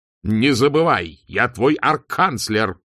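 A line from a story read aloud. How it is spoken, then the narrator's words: Barked. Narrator (Russian): рявкнул он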